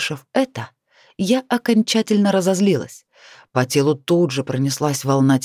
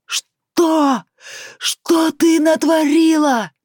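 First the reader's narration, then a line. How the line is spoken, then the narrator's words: Yelling man. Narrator (Russian): заорал он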